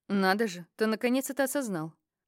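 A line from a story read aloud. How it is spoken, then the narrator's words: Scoffing. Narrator (Russian): хмыкнул философ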